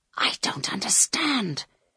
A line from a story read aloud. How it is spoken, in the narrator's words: whispered Carl